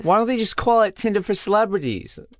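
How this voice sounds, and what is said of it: Put-on Bronx accent. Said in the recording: “What's that accent? What was that accent? ... casual Bronx idiot”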